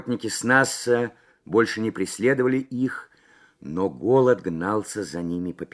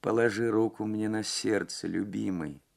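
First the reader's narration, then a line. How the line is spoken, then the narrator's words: Clear but barely audible, distant. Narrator (Russian): сказала она ясным, но еле слышным голосом, прозвучавшим точно издалека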